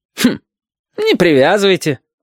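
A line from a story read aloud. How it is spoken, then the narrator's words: Forced cheerful voice. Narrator (Russian): ненатурально бодрым голосом сказал Хариус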